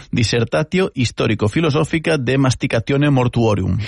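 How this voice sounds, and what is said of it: Latin read with put-on Italian accent. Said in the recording (Catalan): “Ho he fet amb accent italià. ... he llegit llatí amb accent italià”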